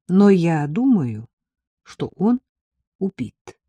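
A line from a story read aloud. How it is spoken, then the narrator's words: Still calm. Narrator (Russian): сказал Саша все так же спокойно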